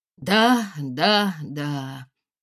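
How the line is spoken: Worried sigh. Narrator (Russian): озабоченно вздохнул Чуркин

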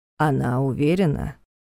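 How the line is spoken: Grim question. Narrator (Russian): мрачно уточнил Карпатский

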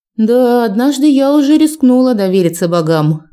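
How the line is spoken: Grumbling mutter. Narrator (Russian): пробурчала

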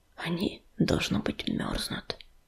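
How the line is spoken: Whispered. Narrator (Russian): прошептал Крутобок

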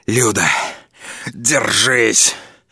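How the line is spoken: Hoarse, spitting. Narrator (Russian): Прохрипел я, отплевываясь тем, что скопилось у меня во рту

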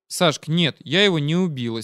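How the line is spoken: Serious, calm reply. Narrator (Russian): серьезно и спокойно ответила Маша

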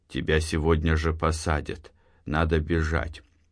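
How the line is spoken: Quiet. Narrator (Russian): Матвей тихо сказал

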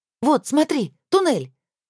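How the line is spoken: Joyful statement. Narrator (Russian): радостно констатировала

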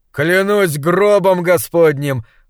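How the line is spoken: Frenchman laughing loudly. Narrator (Russian): расхохотался француз

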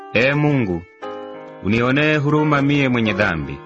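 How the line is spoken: Sorrowful plea. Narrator (Swahili): akijipiga kifua kwa huzuni, alisema

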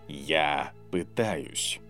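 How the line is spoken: Quiet. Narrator (Russian): тихо сказал тот

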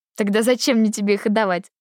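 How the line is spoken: Laughing. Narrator (Russian): засмеялась я

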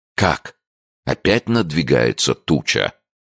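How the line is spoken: Exclamation. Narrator (Russian): воскликнул доктор

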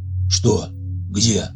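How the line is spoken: Quiet question. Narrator (Russian): негромко спрашивал Михаил

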